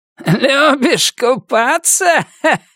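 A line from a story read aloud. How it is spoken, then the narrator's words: Question, then guffawing. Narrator (Russian): спросил он и захохотал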